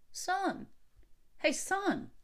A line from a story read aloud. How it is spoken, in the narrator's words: a voice called out to him